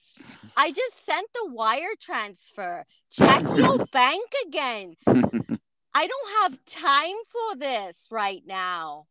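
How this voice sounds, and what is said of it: Anna Delvey impression, European accent. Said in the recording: “I like the accent. ... Dude, Anna Delvey.”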